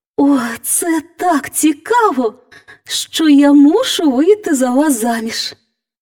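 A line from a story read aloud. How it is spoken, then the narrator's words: Girl's exclamation. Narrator (Ukrainian): вигукнула дівчина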